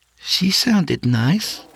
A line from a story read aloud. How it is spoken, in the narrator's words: she added nervously